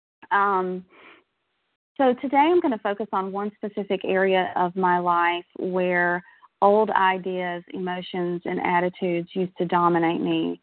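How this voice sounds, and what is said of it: Shaky voice, recovering from illness. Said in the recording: “I'm just getting over a respiratory bug, so my voice is a little bit shaky”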